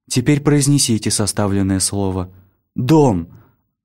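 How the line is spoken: Plain. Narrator (Russian): сказал он

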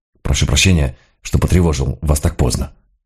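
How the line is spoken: Grumble. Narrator (Russian): буркнул

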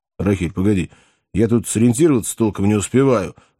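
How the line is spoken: Pleading young man. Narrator (Russian): взмолился молодой человек

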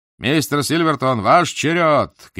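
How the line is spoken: Shout. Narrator (Russian): крикнул он

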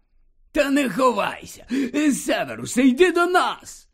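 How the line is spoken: Joyful call, hiccuping. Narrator (Ukrainian): Радісно гукнув, починаючи вже гикати

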